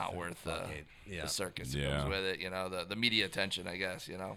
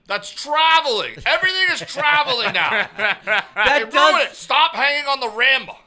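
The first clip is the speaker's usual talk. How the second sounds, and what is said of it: Impression of an older man's voice. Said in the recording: “do an impression of my dad with the watching NBA now? ... That does sound like an old white guy talking about professional basketball.”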